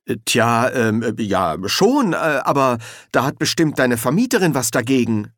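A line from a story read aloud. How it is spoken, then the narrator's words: Stammering. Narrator (German): stammelte Victor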